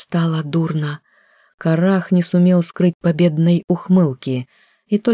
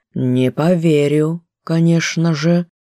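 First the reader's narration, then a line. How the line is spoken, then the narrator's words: Calm interruption. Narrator (Russian): спокойно прервал Датор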